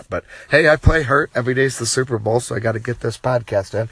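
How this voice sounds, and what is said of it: Worn-out, sick-sounding voice. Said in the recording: “I'm also battling a sickness. As you can tell, my voice is shot.”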